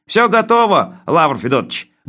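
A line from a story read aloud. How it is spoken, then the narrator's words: Cheerful distant report. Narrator (Russian): бодро сообщил он оттуда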